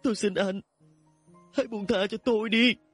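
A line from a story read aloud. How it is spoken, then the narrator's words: Crying. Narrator (Vietnamese): khóc lóc mà nói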